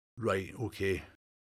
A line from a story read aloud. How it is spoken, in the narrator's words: Logan muttered